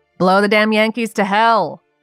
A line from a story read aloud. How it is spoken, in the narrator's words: a sentry called out from the fort